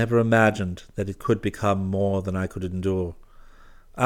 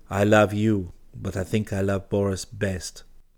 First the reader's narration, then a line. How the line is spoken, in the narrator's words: Genevieve murmured